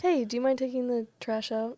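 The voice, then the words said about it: Sweet, gentle voice. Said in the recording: “You got to say it in a sweet voice ... you say it in a sweet voice ... That sweet voice”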